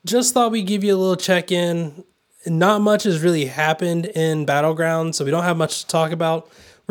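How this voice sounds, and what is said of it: Slightly raspy voice. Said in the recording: “My voice is still a little raspy, if you can't tell.”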